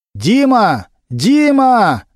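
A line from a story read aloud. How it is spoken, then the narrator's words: Loud call. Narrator (Russian): громко крикнул Немирович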